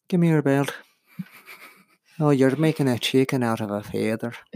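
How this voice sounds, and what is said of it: Put-on Irish accent. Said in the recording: “Talking an Irish accent.”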